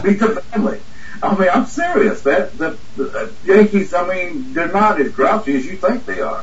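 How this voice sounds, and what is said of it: Southern US accent. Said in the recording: “they would recognize my southern accent”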